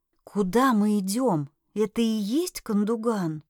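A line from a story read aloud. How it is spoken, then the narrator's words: Barely audible whispered question. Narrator (Russian): еле слышным шепотом спросила я у Миланы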